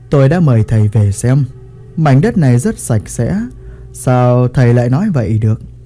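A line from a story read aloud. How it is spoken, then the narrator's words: Smiling. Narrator (Vietnamese): Thầy Chu mỉm cười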